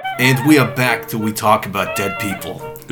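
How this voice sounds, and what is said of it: Imitates another person's voice. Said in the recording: “Is that your Winston Churchill impression? ... That's my Winston Churchill impression. ... I just felt like I had to use this voice”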